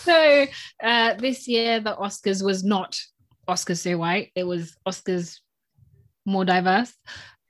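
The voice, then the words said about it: News reporter voice. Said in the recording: “news reporter voice”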